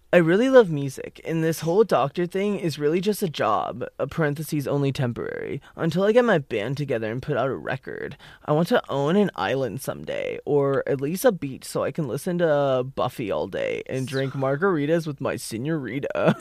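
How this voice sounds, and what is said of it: Exaggerated put-on character voice. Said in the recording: “I hated that voice deeply ... That was my impression.”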